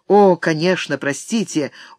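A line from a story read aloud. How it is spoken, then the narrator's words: Weary reply. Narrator (Russian): устало откликнулся Блэксорн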